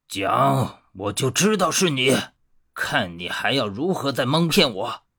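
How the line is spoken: Angry roar. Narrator (Chinese): 一声怒吼

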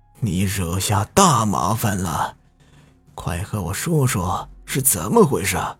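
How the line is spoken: Old, trembling, weathered voice. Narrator (Chinese): 年纪最大的一个白头发、白胡子的神棍，颤颤巍巍的 声音沧桑的说

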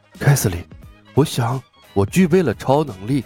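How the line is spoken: Mysterious lowered voice. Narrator (Chinese): 鲍勃一脸神秘的压低了声音

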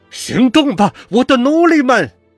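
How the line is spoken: Hoarse frantic shout. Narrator (Chinese): 猴子声嘶力竭的喊道

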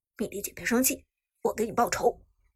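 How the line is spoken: Deep steady voice. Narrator (Chinese): 苏哲当即沉声说道

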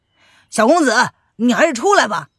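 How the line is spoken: Loud shout into car. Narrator (Chinese): 徐龙等人冲着车内大声的喊道

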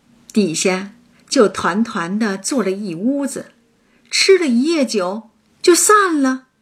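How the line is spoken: Laughing. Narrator (Chinese): 她笑道

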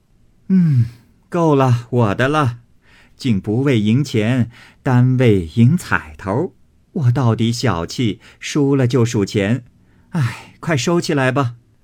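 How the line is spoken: Laughing. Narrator (Chinese): 向众人笑道

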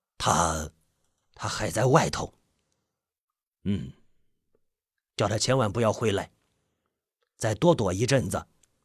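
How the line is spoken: Hesitant, soft reply. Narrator (Chinese): 金老爷子先是一愣，随后轻声答道

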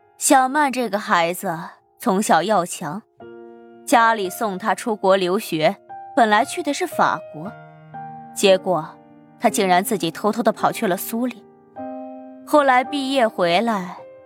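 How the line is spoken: Sighing. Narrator (Chinese): 沈五娘又叹气道

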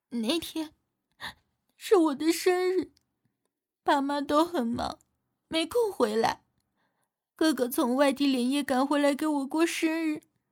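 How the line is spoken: Tearful, steadying voice. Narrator (Chinese): 蒋圆圆又哭了一会儿，止住了眼泪，说道

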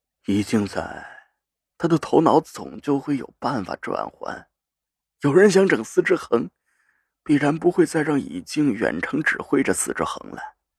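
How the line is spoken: Heavy, grave. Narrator (Chinese): 赵信如的声音沉重的在空气里盘旋

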